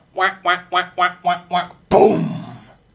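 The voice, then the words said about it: Duck Hunt game sound impression. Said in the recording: “Duck Hunt, You know, the whack, whack, whack, whack, whack, bang! ... I'm put on a very good impression.”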